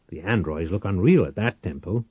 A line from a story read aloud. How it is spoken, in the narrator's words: DeSantis snarled